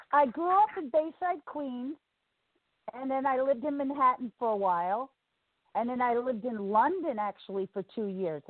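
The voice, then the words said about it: Northern US accent. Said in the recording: “I noticed you had a real northern sounded accent.”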